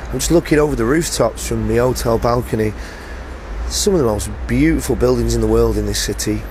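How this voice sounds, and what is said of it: Slightly hoarse voice. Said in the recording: “I've done 4 gigs in a row, so my voice is a little bit hoarse.”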